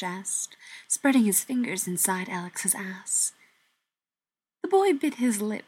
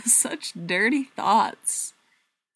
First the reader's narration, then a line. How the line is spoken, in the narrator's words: Cash laughed